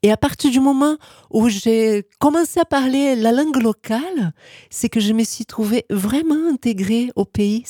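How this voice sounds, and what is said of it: Brazilian accent in French. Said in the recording (French): “mon accent brésilien”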